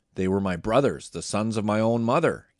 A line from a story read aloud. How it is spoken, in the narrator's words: Gideon exclaimed